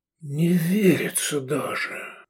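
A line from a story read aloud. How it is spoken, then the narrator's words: Breathed out. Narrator (Russian): выдохнул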